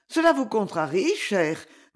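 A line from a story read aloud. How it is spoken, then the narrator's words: Regretful, slightly surprised. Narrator (French): dit-elle d'un ton de regret, auquel se mêlait un peu d'étonnement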